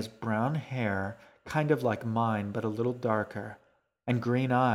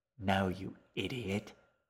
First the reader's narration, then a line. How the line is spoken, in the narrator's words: hissed